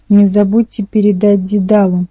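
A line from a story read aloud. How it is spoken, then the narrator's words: Growled. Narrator (Russian): прорычал Минус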